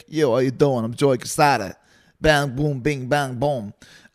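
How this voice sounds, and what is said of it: Thick New York accent impression. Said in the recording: “the New York accent setting and turn that down a bit, because it's super, super thick”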